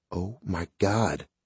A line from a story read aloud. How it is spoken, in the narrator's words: Jess said in a whisper